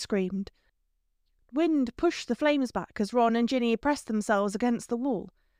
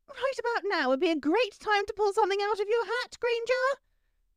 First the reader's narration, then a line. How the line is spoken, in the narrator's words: Pansy screamed